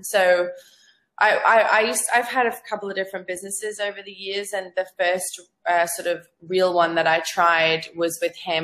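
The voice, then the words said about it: Australian accent. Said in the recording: “I have an Aussie accent. It's really hard to shake.”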